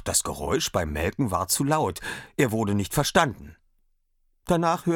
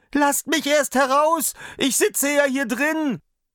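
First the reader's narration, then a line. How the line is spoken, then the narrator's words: Frightened high-pitched cry. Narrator (German): Da bekam der Daumerling schreckliche Angst, dass er mit heller Stimme rief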